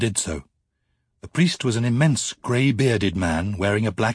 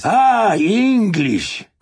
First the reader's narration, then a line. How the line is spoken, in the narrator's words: cried the priest gleefully in English